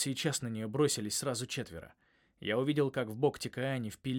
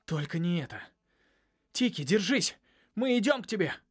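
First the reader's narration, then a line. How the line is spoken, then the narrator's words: Shouted. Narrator (Russian): крикнул я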